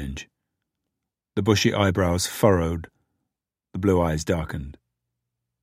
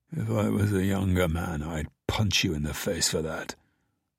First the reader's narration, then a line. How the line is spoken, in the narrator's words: Harry muttered